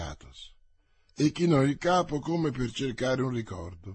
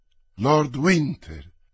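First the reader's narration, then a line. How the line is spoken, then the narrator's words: Exclamation. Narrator (Italian): esclamò il conte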